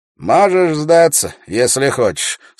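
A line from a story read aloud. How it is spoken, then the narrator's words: Calm. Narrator (Russian): спокойно произнес Джилан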